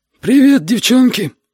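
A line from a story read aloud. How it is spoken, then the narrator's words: Wheezed. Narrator (Russian): просипел Витя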